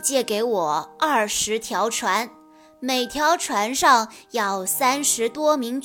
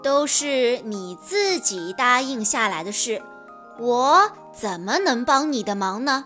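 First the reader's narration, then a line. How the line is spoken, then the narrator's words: Plain. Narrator (Chinese): 诸葛亮说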